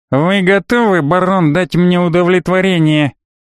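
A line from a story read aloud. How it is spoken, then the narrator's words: Insolent nasal asking. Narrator (Russian): Наглый и гнусаво поинтересовался Дорк ван Хепнейр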